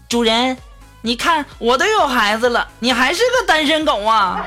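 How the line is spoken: Shrill voice. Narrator (Chinese): 我妈就在那尖声尖气的就说了

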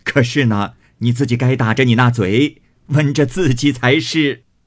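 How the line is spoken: Laughing. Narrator (Chinese): 贾母笑道

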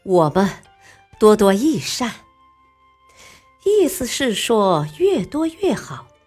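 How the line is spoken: Smiling. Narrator (Chinese): 韩信笑了笑

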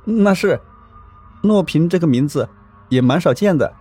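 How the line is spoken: Nervous, with a smile. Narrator (Chinese): 我壮着胆子，同样的笑了一下，说

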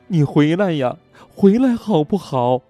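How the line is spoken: Heartbroken sobbing. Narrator (Chinese): 他哭得撕心裂肺，泪涕横流

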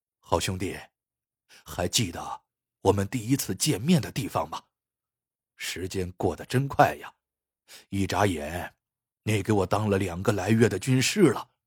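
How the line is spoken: Low voice. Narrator (Chinese): 崔麻子低声说道

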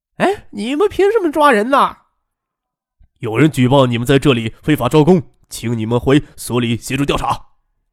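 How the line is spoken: Loud protesting shout. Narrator (Chinese): 那两个青年男女还挣扎着不敢上警车，大声嚷嚷

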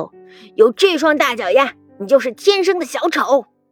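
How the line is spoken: Loud roar. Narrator (Chinese): 牛老师大吼

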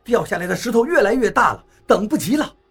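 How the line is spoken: Shouting. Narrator (Chinese): 我也喊道

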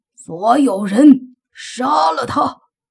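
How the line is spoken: Old man's furious roar. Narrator (Chinese): 王老头怒吼着，大喝

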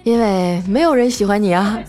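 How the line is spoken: Smiling. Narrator (Chinese): 我笑了笑说

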